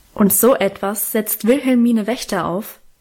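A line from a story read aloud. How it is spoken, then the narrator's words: Cutting voice. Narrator (German): sagte dann mit schneidender Stimme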